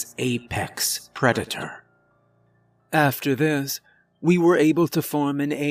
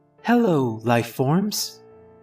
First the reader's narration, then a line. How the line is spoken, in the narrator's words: it said in a cheerful voice